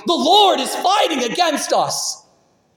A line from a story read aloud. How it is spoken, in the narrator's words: Egypt's army fell into a great panic, shouting